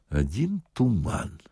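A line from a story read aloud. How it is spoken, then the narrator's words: Quiet. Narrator (Russian): сказал милиционер тихо дежурному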